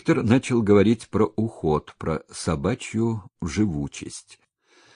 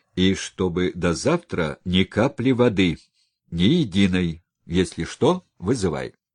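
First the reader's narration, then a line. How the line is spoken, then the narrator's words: Stern. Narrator (Russian): Доктор строго сказал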